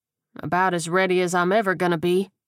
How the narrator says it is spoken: Hickman replied, his voice monotone

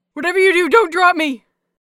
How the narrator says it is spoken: Yuri shouted

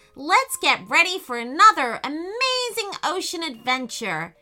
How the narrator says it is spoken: shouted Peyton

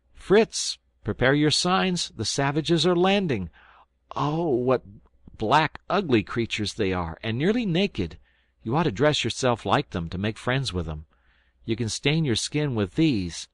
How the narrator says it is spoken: Jack, with his usual rashness, suddenly cried out

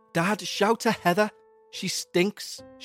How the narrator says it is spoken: moaned

